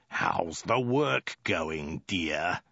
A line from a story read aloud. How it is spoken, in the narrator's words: snarled again